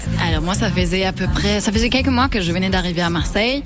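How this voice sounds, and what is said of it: German accent speaking French. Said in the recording (French): “Vous avez un bel accent, vous venez de quel endroit ... De l'Allemagne.”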